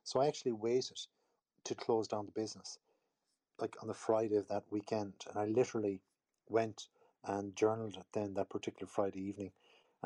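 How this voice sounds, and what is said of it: Irish accent. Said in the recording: “I'm obviously in Ireland with my funny little accent”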